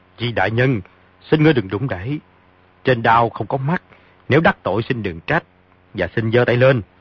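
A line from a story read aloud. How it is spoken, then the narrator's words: Shouting. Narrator (Vietnamese): Phong Tế Trung quát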